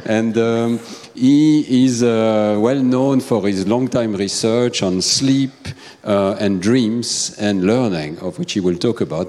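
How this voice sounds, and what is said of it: Non-native accent in English. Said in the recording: “I hope my accent is not so ... mal.”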